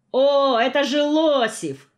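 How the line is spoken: Boy shouting with delight. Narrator (Russian): в полном восторге закричал мальчик

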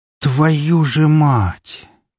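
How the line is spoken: Near groan. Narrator (Russian): Почти простонал

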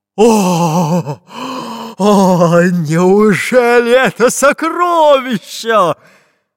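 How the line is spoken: Hoarse shout. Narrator (Russian): Хрипло закричал пират Буль-Буль

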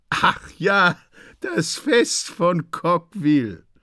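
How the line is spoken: Laughing. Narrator (German): sagen die Leute lachend

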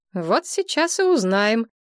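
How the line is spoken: Cheerful, brisk. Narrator (Russian): бодро сказала Надежда

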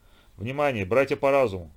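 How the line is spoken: Calm, quiet, firm. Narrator (Russian): спокойным, тихим, но твердым тоном начал он

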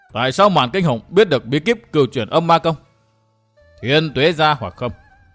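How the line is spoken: Stern tense voice. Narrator (Vietnamese): Lâm Tử bặm môi nghiêm giọng nói

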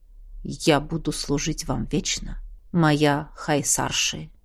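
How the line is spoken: Quiet but firm. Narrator (Russian): тихо, но твердо сказал он

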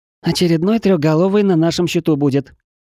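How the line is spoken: Joyful declaration. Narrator (Russian): радостно заявила чешуйка

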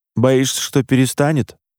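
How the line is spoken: Snorting smirk. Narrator (Russian): хмыкнул Димка

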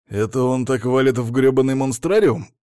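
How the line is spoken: Grumbling. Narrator (Russian): проворчал я

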